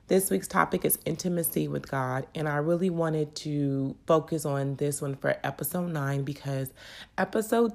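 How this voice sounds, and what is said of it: Crackly, congested voice. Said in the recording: “my voice is a little crackly or if it sounds as if I'm a little congested ... I'm trying to fight off a cold”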